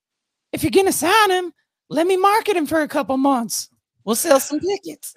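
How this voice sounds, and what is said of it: Imitates another person's voice. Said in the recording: “Spot on Cornette impersonation”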